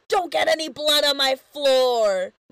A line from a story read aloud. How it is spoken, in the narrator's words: And Lube yells